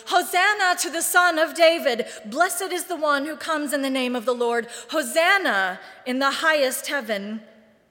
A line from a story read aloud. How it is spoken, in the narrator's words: The crowds were shouting